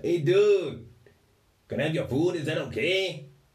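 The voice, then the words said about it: Put-on Mexican accent. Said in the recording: “was from Mexico ... I do apologise for the accents.”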